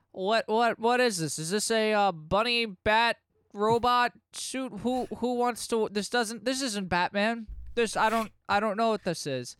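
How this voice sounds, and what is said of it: Impression of Commissioner Gordon's voice. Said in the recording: “That's my Gordon impression.”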